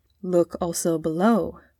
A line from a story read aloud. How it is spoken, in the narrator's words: whispered Sir Thomas